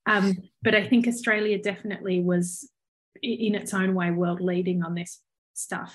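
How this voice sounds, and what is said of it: Australian accent. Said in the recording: “by my accent that I clearly grew up in Australia”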